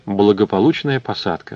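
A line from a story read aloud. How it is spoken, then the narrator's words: Sighing. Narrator (Russian): вздохнул Изон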